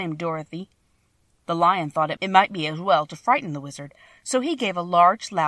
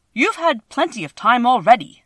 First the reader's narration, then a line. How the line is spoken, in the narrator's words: said the Tin Woodman angrily